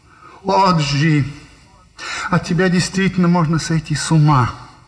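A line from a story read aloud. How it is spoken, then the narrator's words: Exclaiming. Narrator (Russian): воскликнула леди Дейн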